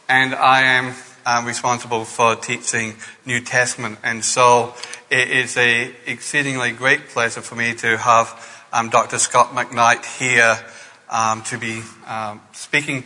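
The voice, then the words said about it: Scottish accent. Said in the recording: “You may recognize from the accent that I was born in Scotland”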